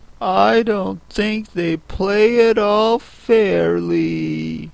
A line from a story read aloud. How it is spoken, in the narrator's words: Alice began in a rather complaining tone